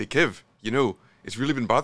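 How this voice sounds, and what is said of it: Poorly attempted Kiwi accent. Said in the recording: “in his Kiwi accent say ... That's not a good. I can't do a Kiwi accent.”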